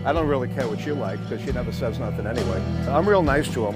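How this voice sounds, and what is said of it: New York accent. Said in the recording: “He's got a New York accent ... he's a Jewish guy from, like, the Bronx or something.”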